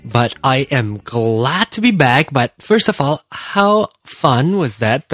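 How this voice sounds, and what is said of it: Voice sounds unwell. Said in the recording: “Still not completely well yet, as you can tell from my voice”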